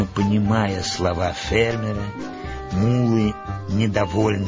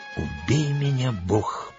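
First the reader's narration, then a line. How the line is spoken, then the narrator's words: Stunned whisper. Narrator (Russian): прошептал пораженный Джон Смит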